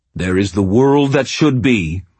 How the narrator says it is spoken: he growled

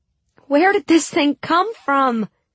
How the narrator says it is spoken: I shouted up to Sturmhand

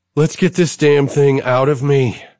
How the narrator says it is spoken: she says, groaning

